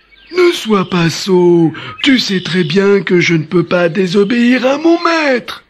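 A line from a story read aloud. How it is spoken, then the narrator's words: Old man exclaiming. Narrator (French): s'écria le vieux sultan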